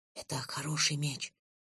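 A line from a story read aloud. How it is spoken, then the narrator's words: Whisper in ear. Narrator (Russian): прошептал Лен мне на ухо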